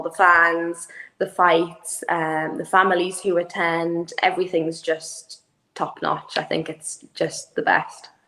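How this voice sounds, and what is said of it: Irish accent, shortened words. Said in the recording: “that one slipped by me there, the accent ... with my accent, it is the pronunciation can be a little bit different. I do have a horrible tendency to shorten words so people can't understand.”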